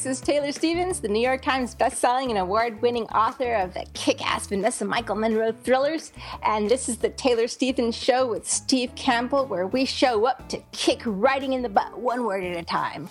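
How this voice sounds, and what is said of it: Funny put-on voice. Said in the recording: “You're using a funny voice there. ... this is me squinting my face going, aha!”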